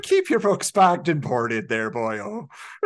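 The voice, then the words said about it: Put-on Irish accent. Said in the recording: “You should have done that in an Irish accent.”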